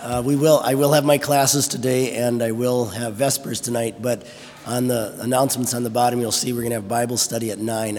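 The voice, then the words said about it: Hoarse, rough voice from a cold. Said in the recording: “my voice is a little shot. I have a bad cold that's settled in my throat... sounds terrible... my voice is messed up today”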